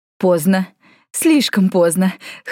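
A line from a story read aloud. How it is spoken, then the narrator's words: Manic chuckle. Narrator (Russian): хохотнул Нергал, скалясь в безумной усмешке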